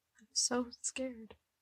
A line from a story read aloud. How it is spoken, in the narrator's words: she said, quietly enough that Eddie thought he wasn't supposed to hear it